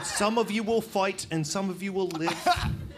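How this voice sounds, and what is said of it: Terrible Scottish accent, Mel Gibson impression. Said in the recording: “that was a terrible Scottish accent ... it was at least Mel Gibson's accent”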